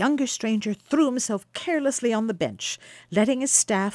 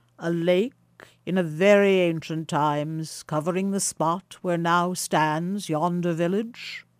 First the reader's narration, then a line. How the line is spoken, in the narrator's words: asked the stranger, in a remarkably deep tone of voice